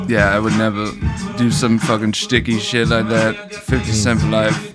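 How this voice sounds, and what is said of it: Imitates another person's voice. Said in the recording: “That's the best part of that impression, that little aha.”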